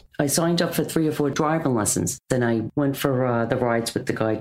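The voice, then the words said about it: Bronx New York accent. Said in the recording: “As you might have inferred from her accent, ... grew up in the Bronx”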